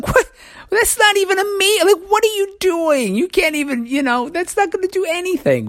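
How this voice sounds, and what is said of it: High-pitched voice. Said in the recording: “my voice went so high”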